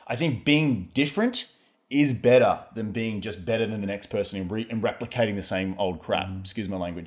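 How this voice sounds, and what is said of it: Australian accent. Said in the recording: “your accent is different. ... My accent's different, right? So the guy, Reed, he's the Aussie guy”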